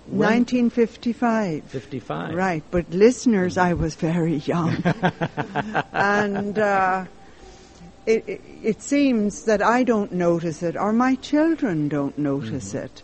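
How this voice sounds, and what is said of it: Irish brogue. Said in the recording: “that Irish brogue ... so beautiful”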